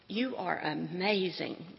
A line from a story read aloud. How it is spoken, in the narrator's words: God laughed